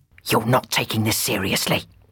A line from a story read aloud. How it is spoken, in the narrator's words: whispered her demon